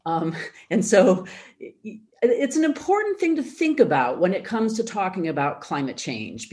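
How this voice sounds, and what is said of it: American accent. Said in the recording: “maybe you hear this in my accent, but I am an American”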